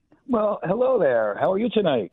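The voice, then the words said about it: Smooth, resonant radio-style voice. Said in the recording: “You have a wonderful radio voice”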